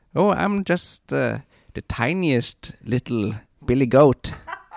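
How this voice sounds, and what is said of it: Goat character voice. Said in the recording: “No, just keep doing the goat voice.”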